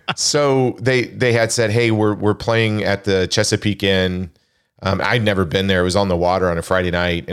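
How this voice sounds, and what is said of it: Crackly, slightly hoarse voice. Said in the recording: “my voice is a little crackly”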